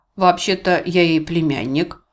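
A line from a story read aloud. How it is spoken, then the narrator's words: Plain, young man. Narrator (Russian): ответил молодой человек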